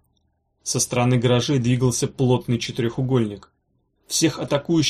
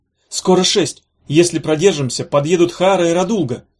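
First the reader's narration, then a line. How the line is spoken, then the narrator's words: Hopeful shout. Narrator (Russian): с надеждой крикнул Алексей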